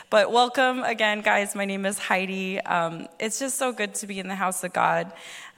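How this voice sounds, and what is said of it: Slightly husky voice. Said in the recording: “my voice is a little husky ... I'm recovering from a bit of a cold”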